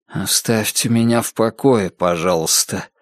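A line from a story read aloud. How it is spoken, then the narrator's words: Soft quiet words. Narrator (Russian): тихонько проговорил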